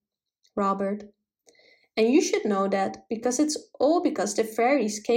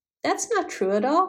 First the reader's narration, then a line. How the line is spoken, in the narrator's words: cried the fairy boy indignantly